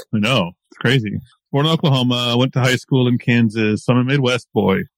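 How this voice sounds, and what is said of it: American Midwestern accent. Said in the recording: “you can tell from my accent that I'm not from Europe ... I'm American. I was born in Oklahoma.”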